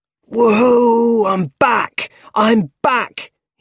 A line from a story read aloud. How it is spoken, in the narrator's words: he shouted